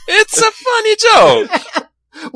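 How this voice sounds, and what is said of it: Put-on Italian accent. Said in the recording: “Why are you getting an Italian accent?”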